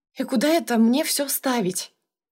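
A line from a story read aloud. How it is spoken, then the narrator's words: Muttered. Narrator (Russian): пробормотала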